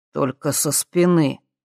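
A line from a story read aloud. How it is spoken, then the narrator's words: Said gloomily. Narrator (Russian): мрачно произнес Марат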